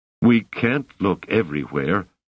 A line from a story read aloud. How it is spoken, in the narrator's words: mumbled Banastra miserably